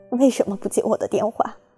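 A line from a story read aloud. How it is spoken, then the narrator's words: Crying woman. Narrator (Chinese): 她哭着说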